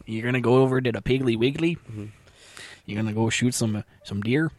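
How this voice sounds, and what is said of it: Put-on Midwestern American accent. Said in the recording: “Yeah, that was perfect. Wow, that was really good. Was it like Michigan or Wisconsin accent”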